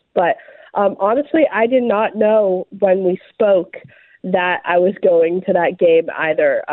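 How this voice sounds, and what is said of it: Congested, sick-sounding voice. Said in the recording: “I'm recovering from a sinus infection, so I apologize for my voice.”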